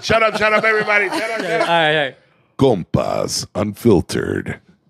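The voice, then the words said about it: Announcer-style radio voice. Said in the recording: “do your radio voice for us”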